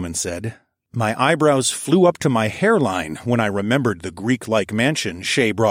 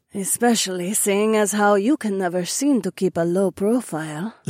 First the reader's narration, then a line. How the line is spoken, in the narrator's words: Zoe purred